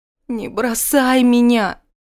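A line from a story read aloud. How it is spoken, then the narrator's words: Moaning. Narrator (Russian): застонала Ракель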